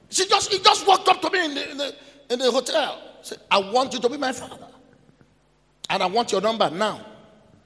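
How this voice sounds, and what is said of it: English with a Yoruba accent. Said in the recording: “A prophet who speaks English with Yoruba accent.”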